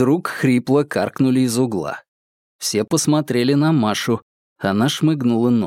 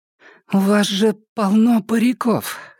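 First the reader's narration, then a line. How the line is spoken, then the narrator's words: Hoarse but firm. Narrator (Russian): хрипло, но твердо сказала она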